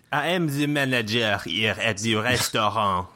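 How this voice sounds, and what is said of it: Bad put-on French accent. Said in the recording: “stereotypical restaurant manager ... who has the bad French accent”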